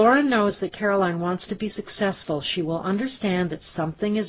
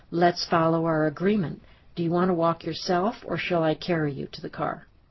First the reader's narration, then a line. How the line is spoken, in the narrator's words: Lauren can calmly say